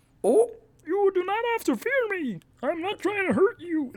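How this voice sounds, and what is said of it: Kermit the Frog voice impression. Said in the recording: “It also has an accent. Lots of planets have a south. ... That's just Kermit the Frog.”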